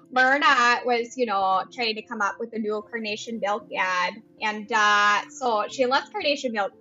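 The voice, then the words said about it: Put-on North Dakota accent. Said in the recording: “I'll say it in my North Dakota accent ... I love your North Dakota accent”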